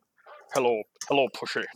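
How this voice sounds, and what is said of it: Slurred Sean Connery impression. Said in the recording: “slur and sound like a total drunkard ... You kind of sound a little bit like Sean Connery ... do a Sean Connery impression. Not only is it terrible”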